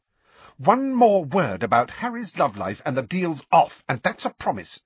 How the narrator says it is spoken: said Hermione irritably

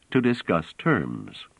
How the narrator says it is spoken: said Trevise calmly

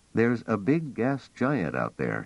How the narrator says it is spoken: said

